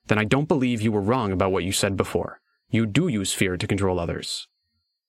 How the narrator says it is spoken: His tone was strained as he spoke

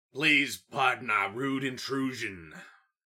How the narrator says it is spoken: Toad Swallow hollered into the house

